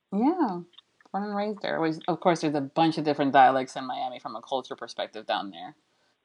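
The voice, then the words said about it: Mild New Jersey accent. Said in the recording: “Never been told I have a Jersey accent before... it's a little bit. I mean, it's not full on, you know. It's not Jersey Housewives kind of accent”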